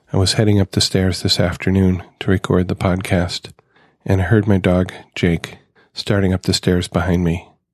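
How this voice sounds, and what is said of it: Slightly hoarse voice. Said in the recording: “If I sound maybe a little hoarse, it's been a trying day.”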